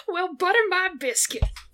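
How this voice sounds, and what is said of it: Put-on Texan southern drawl. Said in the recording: “Please have a southern drawl. Texan. You're Texan.”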